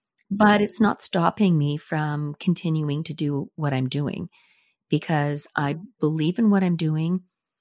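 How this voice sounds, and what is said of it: Slightly hoarse voice. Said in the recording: “my voice is not completely back to what it was, because I still have that little bit of hoarseness”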